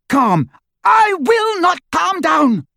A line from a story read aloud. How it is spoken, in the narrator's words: she screamed